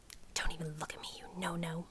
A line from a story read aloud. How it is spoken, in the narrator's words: she says to me, low under her breath